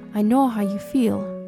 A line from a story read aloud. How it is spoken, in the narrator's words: Willy said